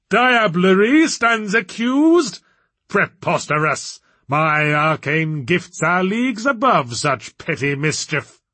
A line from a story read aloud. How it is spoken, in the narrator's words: he bellowed